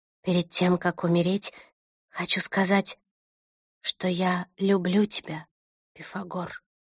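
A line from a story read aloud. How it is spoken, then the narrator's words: Quiet. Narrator (Russian): Я тихо сказала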